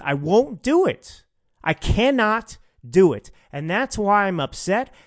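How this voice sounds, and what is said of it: Raised, angry voice. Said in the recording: “my voice is raised”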